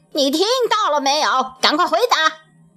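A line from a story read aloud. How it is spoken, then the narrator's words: Angry shouting. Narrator (Chinese): 县令生气地喊了起来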